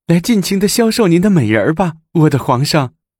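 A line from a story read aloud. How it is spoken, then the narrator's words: Exclaiming. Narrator (Chinese): 武则天说着，口内还叫着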